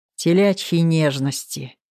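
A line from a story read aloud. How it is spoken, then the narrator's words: Grumbling. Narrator (Russian): пробурчал Артур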